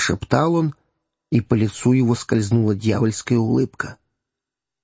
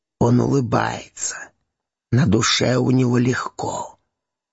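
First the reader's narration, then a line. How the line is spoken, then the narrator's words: Hermit whispering. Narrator (Russian): прошептал пустынник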